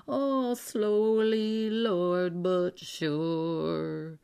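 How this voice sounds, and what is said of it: Murmured singing. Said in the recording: “sang in a murmuring voice”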